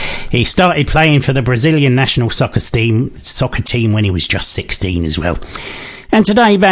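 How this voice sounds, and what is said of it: Usual voice. Nothing is said of it.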